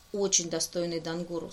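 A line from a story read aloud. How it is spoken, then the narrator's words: Dry remark. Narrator (Russian): сухо обронил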